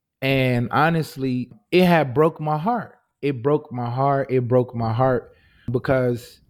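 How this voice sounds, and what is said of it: Emotional, voice close to tears. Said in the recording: “I'm getting a little emotional now”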